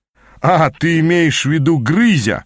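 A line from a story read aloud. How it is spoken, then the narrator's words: Buddy laughing. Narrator (Russian): рассмеялся кореш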